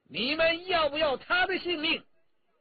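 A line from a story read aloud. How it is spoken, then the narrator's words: Loud shout. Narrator (Chinese): 陈家洛高声叫着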